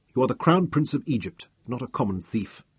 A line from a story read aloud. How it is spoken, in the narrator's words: I told him sternly